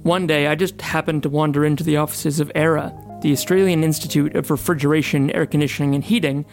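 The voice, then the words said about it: Australian accent. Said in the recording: “just your typical Melbourne podcaster. You can tell from the funny accent.”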